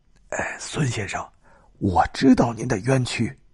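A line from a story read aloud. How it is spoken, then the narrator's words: Whispered. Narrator (Chinese): 那个人小声的对他说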